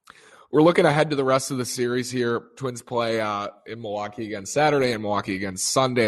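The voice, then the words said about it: Strained, nearly lost voice. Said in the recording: “That's why my voice is gone.”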